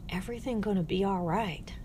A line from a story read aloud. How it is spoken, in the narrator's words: she whispered